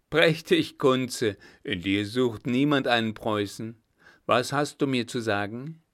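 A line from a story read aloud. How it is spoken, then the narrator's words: Amused, laughing. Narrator (German): stieß er ein helles Lachen aus und sagte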